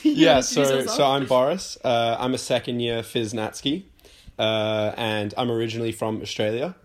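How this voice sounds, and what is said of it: Australian accent. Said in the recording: “So bit of a different accent to you guys ... I've got the accent”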